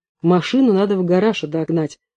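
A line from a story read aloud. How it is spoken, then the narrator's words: Gloomy. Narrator (Russian): мрачно сказал телохранитель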